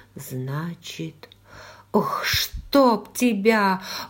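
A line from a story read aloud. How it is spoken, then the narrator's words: Terrified whisper. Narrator (Russian): в ужасе прошептала я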